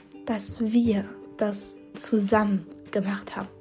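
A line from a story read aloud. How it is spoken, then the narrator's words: Breathy inner whisper. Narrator (German): hauchte sie mir in den Kopf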